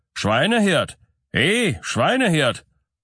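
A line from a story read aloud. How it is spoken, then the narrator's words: Forest lord calling out. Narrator (German): der Herr des Waldes … er rief ebenfalls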